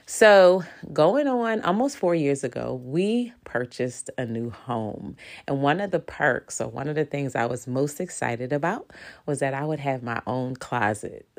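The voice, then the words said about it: Nasal, congested voice. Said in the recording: “My allergies are on 15, so if I sound nasal, if I sound congested, it's true, I am.”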